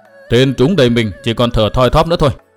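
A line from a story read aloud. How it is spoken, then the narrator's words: Loud call. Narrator (Vietnamese): có người lớn tiếng nói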